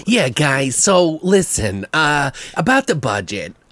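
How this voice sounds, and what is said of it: Imitates another person's voice. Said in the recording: “that's my impersonation”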